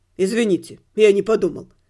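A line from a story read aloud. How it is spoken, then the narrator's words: Tearful teenage mumble. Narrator (Russian): пробормотал проштрафившийся подросток, вытирая слезы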